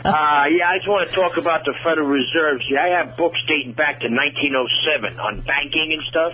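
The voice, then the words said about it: New York accent. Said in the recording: “I expect I'm going to get this Southern accent, and I hear I've got the New Yorker on the line”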